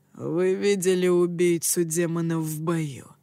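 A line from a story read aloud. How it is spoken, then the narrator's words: Gloomy. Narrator (Russian): мрачно продолжал он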